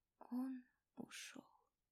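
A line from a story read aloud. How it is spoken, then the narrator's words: Whispered into phone. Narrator (Russian): прошептала Дана в телефон, зная, что ее не услышат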